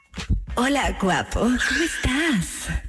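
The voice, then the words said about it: Flirty seductive imitation of another person. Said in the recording (Spanish): “imitación de Riva ... voz de Casanova ... hacía voz de ligue ... qué increíble imitación ... Está idéntica”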